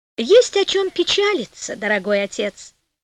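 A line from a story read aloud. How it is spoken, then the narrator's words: Cheerful. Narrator (Russian): весело сказала Пантагиро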